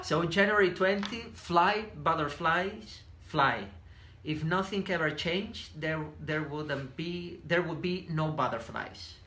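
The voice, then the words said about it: Spanish accent. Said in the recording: “my Spanish accent”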